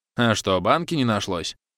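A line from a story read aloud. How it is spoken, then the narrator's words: Displeased grumble. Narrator (Russian): Недовольно заворчала продавщица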